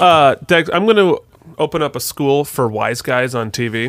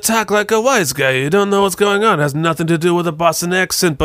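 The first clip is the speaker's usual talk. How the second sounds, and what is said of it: Mumbled half Brooklyn mobster wise-guy voice. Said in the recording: “let me show you how to do a Boston accent on TV in the 90s ... I'm not really moving my lips that much ... half Brooklyn, half mobster, but I'm just not moving my lips, so now I'm a wise guy”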